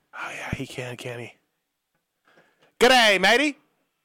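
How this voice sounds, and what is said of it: Put-on Australian accent. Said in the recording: “can you do an Australian accent”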